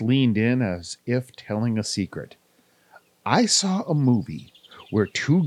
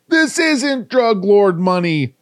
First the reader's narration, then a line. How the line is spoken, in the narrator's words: howled